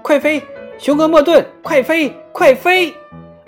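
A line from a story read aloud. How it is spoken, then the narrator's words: Urgent shout. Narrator (Chinese): 阿卡喊道，因为他知道，要不然天鹅会把大雄鹅的每一根羽毛都拔光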